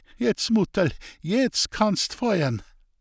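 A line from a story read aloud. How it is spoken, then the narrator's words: Laughing. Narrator (German): sagte er und fügte lachend bei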